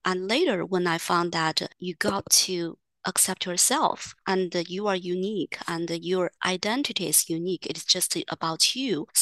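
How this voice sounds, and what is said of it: Chinese accent in English. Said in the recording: “I carry my Chinese accent”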